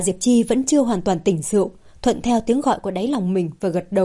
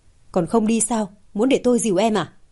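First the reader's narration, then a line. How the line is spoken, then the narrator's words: Cold call. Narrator (Vietnamese): Mạc Đình Kiên gọi Hạ Diệp Chi một cách lạnh lùng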